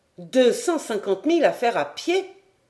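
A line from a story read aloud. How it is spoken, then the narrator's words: Young man exclaiming. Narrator (French): s'écria le jeune capitaine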